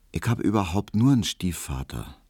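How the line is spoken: Quiet. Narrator (German): sagte Hedwig leise

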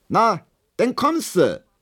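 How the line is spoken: Called out. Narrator (German): rief Hedwig

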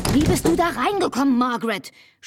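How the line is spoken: Shout. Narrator (German): schrie Albert

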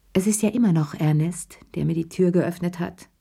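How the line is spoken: Plain. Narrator (German): sagte Cherie schließlich

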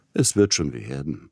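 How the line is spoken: Gentle. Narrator (German): redete Peter Iljitsch sanft aus dem Bett

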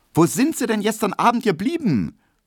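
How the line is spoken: Unfriendly call. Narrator (German): rief die kleine, runde Hedwig Emil Kubinke wenig freundlich entgegen

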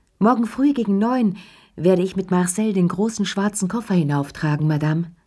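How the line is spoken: Concierge calling down hallway. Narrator (German): die Stimme von Ernest, dem Concierge, der durch den Flur rief

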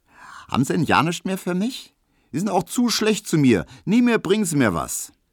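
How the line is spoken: Girl calling out. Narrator (German): rief das Mädchen

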